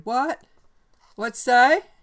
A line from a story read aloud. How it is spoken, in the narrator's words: Putting his hand to his mouth, he shouted